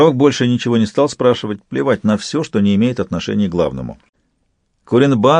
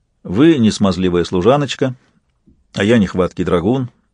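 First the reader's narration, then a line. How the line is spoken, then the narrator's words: Sharp. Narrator (Russian): сказал Сварог резко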